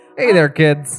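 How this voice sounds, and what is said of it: Put-on character voice. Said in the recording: “I won't do this voice for much longer. I just, you know, I like doing it.”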